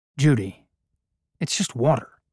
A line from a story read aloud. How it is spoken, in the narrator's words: Harry said